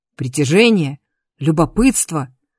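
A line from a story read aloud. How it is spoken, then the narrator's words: Barked. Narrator (Russian): рявкнул профессор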